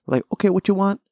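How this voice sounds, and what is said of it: Put-on Asian accent. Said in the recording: “speaking of the Asian accent ... I don't know why I keep going into the accent”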